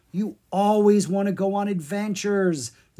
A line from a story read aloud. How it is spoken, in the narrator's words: Zed said with a groan